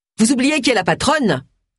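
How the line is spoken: Barking. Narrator (French): aboya Agatha

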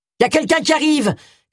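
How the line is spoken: Shouted. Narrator (French): cria Richards

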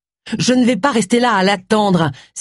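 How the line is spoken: Exclaimed. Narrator (French): s'exclama Agatha

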